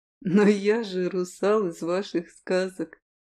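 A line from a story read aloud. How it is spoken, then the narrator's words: Snorting. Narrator (Russian): хмыкнул Киллиан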